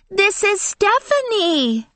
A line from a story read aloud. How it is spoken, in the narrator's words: Angela shouted to her mother